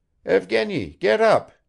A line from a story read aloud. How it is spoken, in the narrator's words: he added loudly